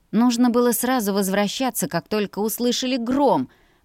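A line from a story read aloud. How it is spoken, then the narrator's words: Grumbled. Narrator (Russian): проворчала я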